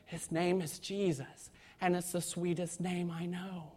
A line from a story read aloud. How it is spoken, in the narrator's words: kind of whispered out to the convert and said